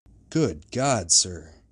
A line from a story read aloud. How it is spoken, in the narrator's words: exclaimed the officer